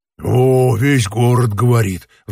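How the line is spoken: Sighed. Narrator (Russian): вздохнул другой

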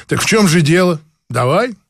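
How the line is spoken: Scoffing grunt. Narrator (Russian): хмыкнул

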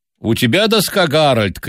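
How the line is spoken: Elderly man shouting. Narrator (Russian): крикнул пожилой

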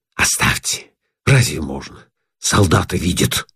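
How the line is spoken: Whisper. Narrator (Russian): шепотом говорит

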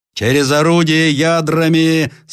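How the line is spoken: Loud command. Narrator (Russian): скомандовал громким голосом Ленский

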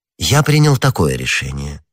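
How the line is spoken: Pleasant tender voice. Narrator (Russian): отвечал Арамис самым приятным нежным голосом

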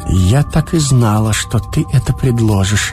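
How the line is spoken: Barely audible, pensive. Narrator (Russian): Наконец она произнесла, еле слышно, точно в раздумье

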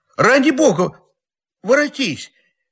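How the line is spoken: Tearful cry. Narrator (Russian): Не голосом, а слезами кричал

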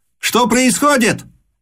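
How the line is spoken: Grand duke shouted. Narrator (Russian): крикнул великий князь

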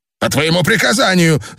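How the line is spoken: Shouting. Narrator (Russian): закричал Дрок-У

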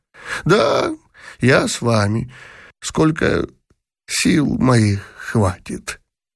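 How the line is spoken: Foolish toothless mumble. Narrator (Russian): прошамкал, дурашливо улыбаясь, Бенниксон

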